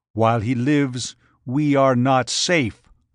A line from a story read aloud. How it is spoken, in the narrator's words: Thordred growled